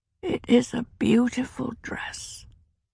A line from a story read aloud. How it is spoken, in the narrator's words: she said in her faint, hoarse voice